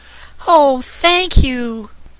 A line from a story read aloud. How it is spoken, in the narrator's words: cried the child